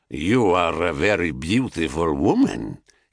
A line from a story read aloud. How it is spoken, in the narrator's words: he said in a thick Thracian accent